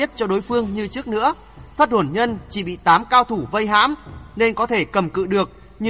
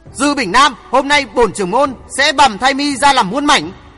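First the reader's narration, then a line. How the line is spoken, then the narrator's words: Loud shout. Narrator (Vietnamese): Hoàng Thượng Chí quát lớn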